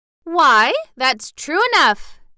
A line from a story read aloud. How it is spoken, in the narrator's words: exclaimed Dorothy